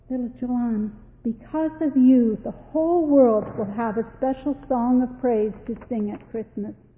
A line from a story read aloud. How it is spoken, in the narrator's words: the angel say in a sweet voice